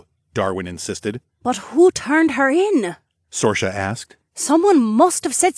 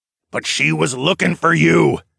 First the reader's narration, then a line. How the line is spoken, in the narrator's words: Darwin snapped